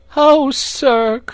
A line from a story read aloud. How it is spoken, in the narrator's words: cried Toad, crying afresh